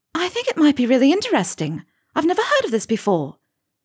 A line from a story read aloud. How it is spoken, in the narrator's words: Hermione said brightly